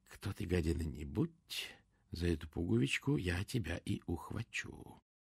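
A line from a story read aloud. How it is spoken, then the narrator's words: Whispering to herself. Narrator (Russian): Прошептала сама себе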